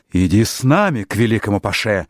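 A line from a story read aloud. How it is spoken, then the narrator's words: Shouting together. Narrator (Russian): закричали они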